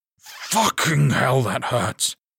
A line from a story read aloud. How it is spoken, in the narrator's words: he spat